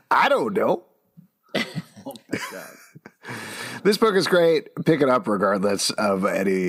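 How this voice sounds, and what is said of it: Usual voice. Nothing is said of it.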